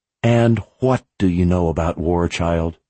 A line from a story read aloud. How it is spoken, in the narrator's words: She whispered